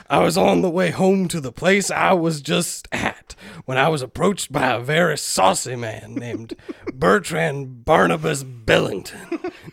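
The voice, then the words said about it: Put-on southern accent, inconsistent. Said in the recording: “I like that bit of southern there ... This accent is going to go all over the place.”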